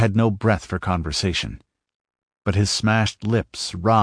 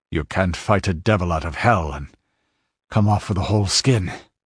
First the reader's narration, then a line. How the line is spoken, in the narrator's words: he panted